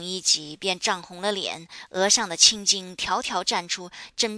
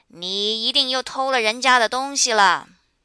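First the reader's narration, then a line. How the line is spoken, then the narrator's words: Deliberate loud yelling. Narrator (Chinese): 他们又故意的高声嚷道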